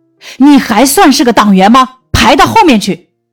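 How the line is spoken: Old man's angry roar. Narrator (Chinese): 老汉 吼道

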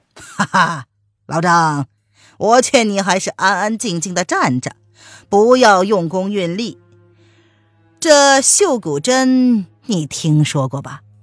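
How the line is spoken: Smiling. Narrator (Chinese): 中年人微笑着说

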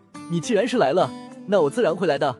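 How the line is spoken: With a chuckle. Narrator (Chinese): 林峰笑了一声

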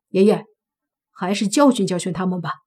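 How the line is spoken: Angry. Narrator (Chinese): 王金龙怒道

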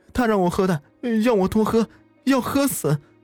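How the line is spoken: Crying. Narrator (Chinese): 哭着说

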